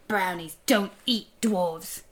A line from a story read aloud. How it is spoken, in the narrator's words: growled